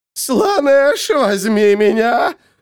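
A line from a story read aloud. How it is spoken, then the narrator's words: Shrieking. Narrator (Russian): визжала она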